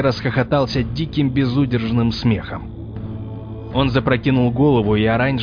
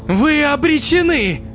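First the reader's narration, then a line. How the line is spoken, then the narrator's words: Shout after laughing. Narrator (Russian): перестав смеяться, прокричал Локи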